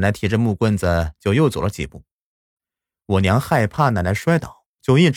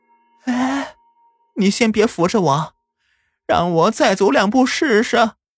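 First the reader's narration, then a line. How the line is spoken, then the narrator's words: Very happy old woman. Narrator (Chinese): 奶奶特别开心的说道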